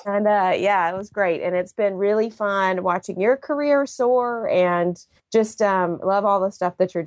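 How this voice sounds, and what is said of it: Slight Southern drawl. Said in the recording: “You sound Southern today a little bit. ... I'm just sinking into the Southern drawl.”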